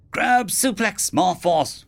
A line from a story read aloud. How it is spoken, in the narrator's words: Wyam yelled